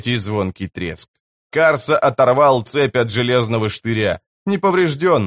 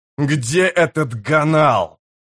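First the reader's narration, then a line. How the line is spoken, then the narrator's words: Growling. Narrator (Russian): прорычал он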